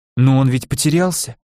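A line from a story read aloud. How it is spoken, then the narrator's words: Timid granddaughter's suggestion. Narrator (Russian): робко предположила внучка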